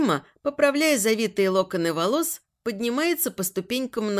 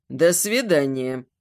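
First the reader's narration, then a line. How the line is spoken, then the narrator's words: Through clenched teeth. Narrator (Russian): Сижу сквозь зубы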